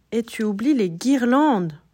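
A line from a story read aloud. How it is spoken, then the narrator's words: Exclaims. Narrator (French): s'exclame Marius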